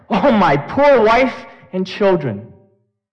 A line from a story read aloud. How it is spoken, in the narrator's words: he cried out in great despair